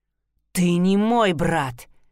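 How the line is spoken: Growled. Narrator (Russian): прорычал Гилберт

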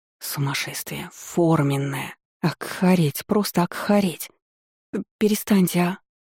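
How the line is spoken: Whispered pleading. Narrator (Russian): взмолилась шепотом

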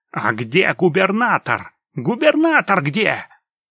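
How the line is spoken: Angry yelling. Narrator (Russian): Из толпы кто-то зло орал

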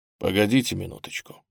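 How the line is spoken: Quiet. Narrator (Russian): тихо говорит священник

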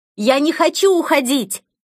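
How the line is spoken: Exhausted desperate scream. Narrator (Russian): Из последних сил я закричала

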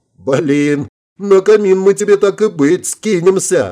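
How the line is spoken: Loud laughter. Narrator (Russian): расхохоталась Элен

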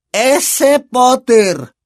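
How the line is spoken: Said loudly. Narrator (Spanish): dijo tía Marge en voz alta

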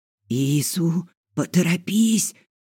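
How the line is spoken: Hoarse voice. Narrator (Russian): Голос Фила звучал хрипло

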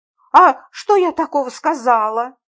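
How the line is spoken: Grumbling. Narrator (Russian): проворчала я

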